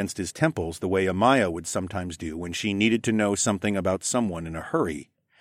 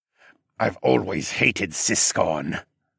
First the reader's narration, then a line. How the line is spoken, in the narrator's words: Siskern growled in a voice that sounded like he was possessed